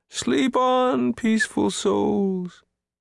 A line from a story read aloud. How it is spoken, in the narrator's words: he wailed